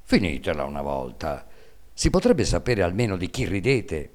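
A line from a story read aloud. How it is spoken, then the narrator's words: Resentful voice. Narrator (Italian): Il babbo, che non sapeva il motivo di questo gran buon umore, disse allora con voce risentita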